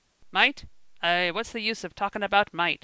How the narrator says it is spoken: growled Uncle Kimble

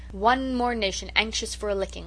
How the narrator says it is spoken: Susan only remarked scornfully

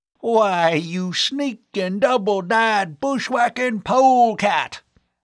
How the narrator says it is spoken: the old Westerner bellowed

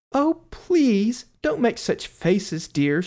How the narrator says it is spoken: she cried out

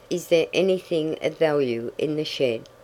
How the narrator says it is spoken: asked Ned

